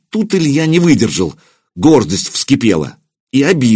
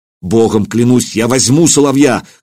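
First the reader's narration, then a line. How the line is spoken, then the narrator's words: Angry shout. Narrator (Russian): крикнул он гневно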